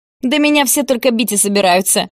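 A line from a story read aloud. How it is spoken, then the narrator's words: Snorting. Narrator (Russian): хмыкнул Гарик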